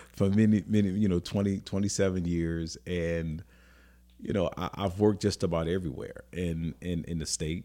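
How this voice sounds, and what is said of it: New Orleans accent. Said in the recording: “We can't tell by the accent.”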